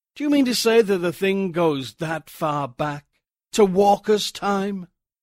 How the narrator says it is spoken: He laughed

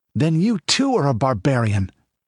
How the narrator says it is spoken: he exclaimed involuntarily

